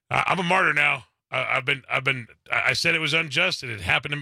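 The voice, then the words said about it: Put-on Southern accent. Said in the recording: “I'm giving him a Southern accent”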